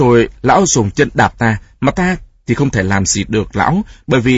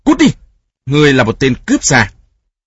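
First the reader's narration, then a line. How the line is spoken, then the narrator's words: Angry shout. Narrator (Vietnamese): giận dữ quát lên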